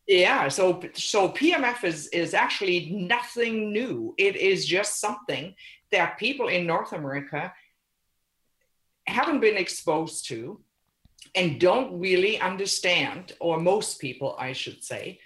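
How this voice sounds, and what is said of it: German accent. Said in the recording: “your accent is from Germany”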